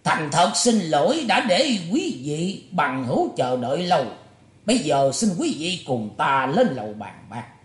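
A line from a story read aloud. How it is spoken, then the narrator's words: Loud speaking. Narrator (Vietnamese): Ngải Chí Thái lớn tiếng nói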